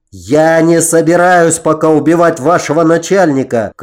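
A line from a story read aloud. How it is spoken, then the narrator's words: Shouted. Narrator (Russian): крикнул я им вслед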